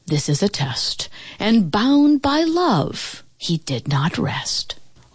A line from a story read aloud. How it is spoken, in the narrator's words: sighed